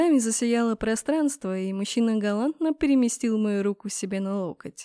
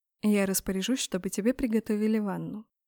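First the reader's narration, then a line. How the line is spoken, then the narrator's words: Quiet. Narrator (Russian): тихо сказал маг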